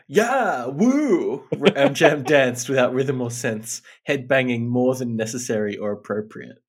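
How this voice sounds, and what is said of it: Imitates a game character's voice. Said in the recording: “a really good Egghead impression”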